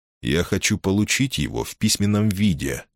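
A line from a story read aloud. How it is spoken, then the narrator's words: Plain. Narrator (Russian): сказал я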